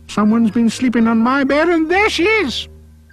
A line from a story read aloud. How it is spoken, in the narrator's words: the wee baby bear cried out